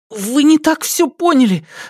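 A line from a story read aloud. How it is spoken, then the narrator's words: Babbling young man. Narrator (Russian): залепетал юноша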